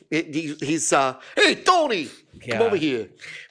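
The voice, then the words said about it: Poor put-on Italian accent. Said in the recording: “My terrible Italian accent, which was horrendous.”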